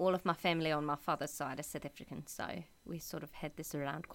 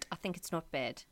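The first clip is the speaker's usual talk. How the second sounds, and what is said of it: Put-on South African accent. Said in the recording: “Can you do the accent? ... I can do quite a good South African accent ... That's not bad at all.”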